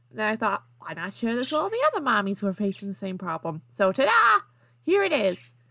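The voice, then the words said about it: Put-on Southern American accent. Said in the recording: “I'm from Georgia. I had to read that in a southern accent.”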